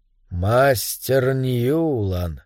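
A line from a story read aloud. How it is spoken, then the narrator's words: Quiet. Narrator (Russian): тихо сказал Эдвин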